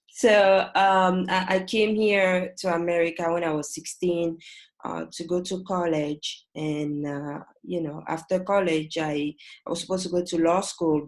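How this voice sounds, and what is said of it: French-accented English. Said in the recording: “I'm originally from West Africa... Ivory Coast... the accent is French”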